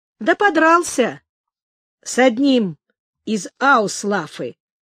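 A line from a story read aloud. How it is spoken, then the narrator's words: Plain. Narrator (Russian): ответил Шишак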